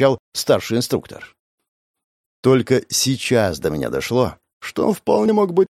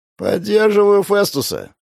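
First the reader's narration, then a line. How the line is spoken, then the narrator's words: Creaky voice. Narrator (Russian): проскрипел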